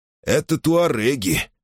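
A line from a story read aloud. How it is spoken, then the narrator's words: Grumbling. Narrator (Russian): ворчал Реми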